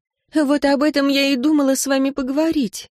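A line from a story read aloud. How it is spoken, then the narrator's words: Hesitant sigh. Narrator (Russian): вздохнула Виктория, нерешительно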